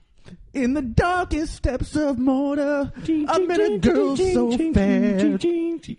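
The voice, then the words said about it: Sung imitation of another person's voice. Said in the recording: “did a Robert Plant impression ... impression of this song was ... a little too much comfort with the singing”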